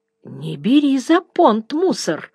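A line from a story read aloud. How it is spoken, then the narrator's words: Uncertain. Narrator (Russian): неуверенно сказала Маня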